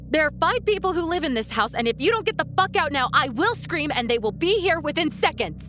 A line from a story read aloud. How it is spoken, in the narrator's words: I blurted